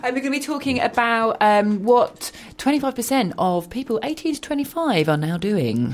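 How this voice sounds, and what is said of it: Polished radio presenter voice. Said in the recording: “Very, very radio voice all of a sudden.”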